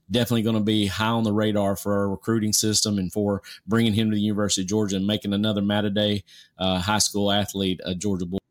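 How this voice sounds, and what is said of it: Southern American drawl. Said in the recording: “my Southern drawl kind of gets in the way”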